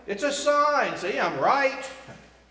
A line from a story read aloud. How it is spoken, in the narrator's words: shouts Sally